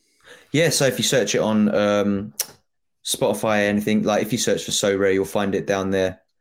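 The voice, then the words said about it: Noticeable regional accent. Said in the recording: “if you're struggling with my accent”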